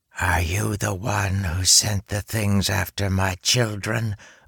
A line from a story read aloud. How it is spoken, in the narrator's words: a female voice hissed in the darkness